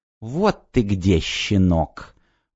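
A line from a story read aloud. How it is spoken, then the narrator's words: Through gritted teeth. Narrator (Russian): процедила Миосика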